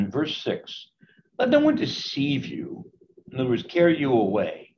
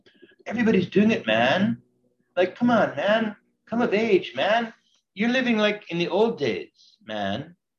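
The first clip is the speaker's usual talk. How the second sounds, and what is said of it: Put-on hippie accent. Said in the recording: “pardon me for using my hippie accent ... people who talk like this”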